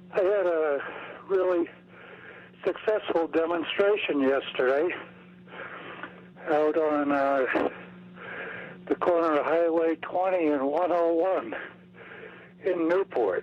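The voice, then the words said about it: Breathless, out-of-breath speech. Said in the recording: “I'm a little out of breath.”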